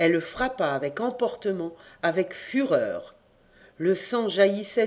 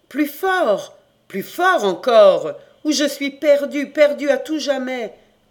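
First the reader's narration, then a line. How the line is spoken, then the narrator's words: Continued shouting. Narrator (French): criait toujours Noélique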